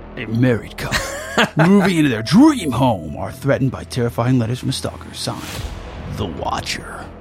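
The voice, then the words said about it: Epic movie trailer narrator voice. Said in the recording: “you do an epic guy voice”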